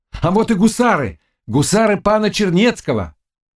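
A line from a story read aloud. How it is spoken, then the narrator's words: Ecstatic shout. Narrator (Russian): еще с большим восторгом он крикнул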